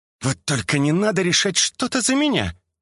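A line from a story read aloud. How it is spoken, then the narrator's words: Snapping retort. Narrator (Russian): огрызнулась-то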